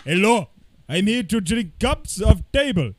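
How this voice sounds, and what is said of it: Attempted, unconvincing Russian accent. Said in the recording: “I don't even know what accent that was. I think I was trying to do Russian, but I don't think it was going down that way.”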